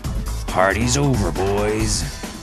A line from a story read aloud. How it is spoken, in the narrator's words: growled Mr